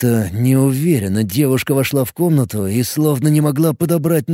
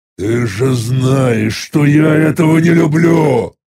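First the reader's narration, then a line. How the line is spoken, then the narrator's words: Irritated growl. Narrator (Russian): Раздраженно рыкнул я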